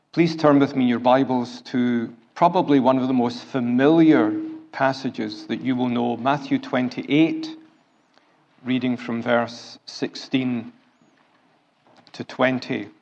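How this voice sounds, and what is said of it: Scottish accent. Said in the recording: “a Scottish accent”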